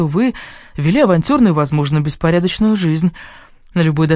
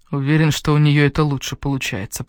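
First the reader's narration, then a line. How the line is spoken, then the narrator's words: Muttered. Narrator (Russian): пробормотал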